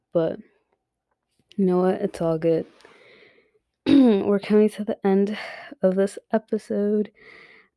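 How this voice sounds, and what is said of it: Strained voice, losing it. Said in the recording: “I'm losing my voice ... Fuck, I'm losing my voice.”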